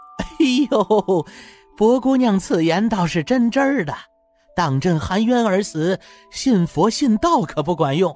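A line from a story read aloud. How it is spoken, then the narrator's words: Laughing. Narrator (Chinese): 福公公顿时笑了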